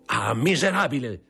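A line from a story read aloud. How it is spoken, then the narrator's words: Stung furious shout. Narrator (Italian): gridò il generale, colpito da quelle parole come fossero ferro rovente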